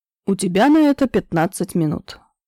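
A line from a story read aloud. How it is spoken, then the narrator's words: Calm reply. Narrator (Russian): спокойно отозвался Кирилл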